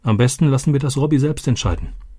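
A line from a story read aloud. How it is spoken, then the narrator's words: Plain. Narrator (German): sagte Roberto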